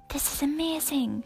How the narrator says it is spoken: whispered excitedly

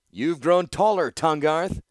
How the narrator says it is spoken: Gerrard called out casually

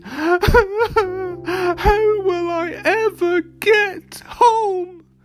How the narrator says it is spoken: She sobbed

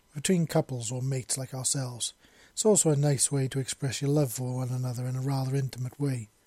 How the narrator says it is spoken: he said softly

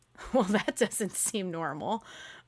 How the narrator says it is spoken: I laughed

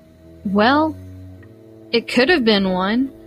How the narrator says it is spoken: I argued

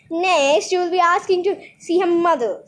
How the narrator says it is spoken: snapped Grandfather

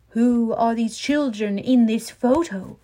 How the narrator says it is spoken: Barbara Walters asked dramatically

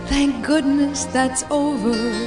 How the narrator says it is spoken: whispered

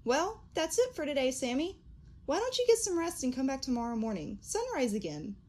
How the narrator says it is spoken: chirped

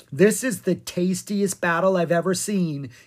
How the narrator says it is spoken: he said merrily

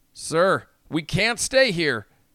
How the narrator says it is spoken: the deck pilot shouted

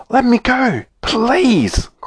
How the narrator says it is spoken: cried Snow White

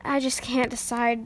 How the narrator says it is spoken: Jax said with a sigh

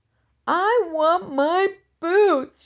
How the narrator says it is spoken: she howled and began to cry again

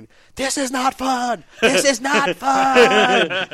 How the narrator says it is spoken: yelling saying

